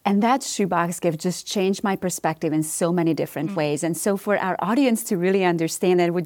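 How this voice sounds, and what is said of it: Romanian accent. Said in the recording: “I am originally from Romania. So this is not a southern accent that everybody's hearing here.”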